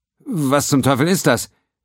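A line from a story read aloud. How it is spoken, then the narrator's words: Called out. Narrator (German): rief Pennington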